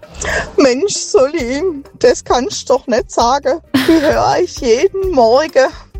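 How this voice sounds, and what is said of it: Swabian German dialect. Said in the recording (German): “Ich bin ein Schwab ... Du kannst den Dialekt von der Schwabe nicht hören ... schlimmen Dialekt”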